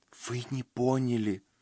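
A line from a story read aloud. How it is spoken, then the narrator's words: Whispered. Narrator (Russian): прошептала она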